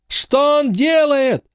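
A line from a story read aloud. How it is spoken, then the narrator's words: Shouting. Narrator (Russian): закричал Майкл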